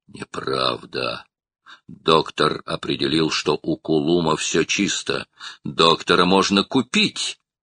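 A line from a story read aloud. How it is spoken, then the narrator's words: Hoarse, bloodthirsty retort. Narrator (Russian): хрипло отрезал Строн, чувствуя, как его охватывает жажда крови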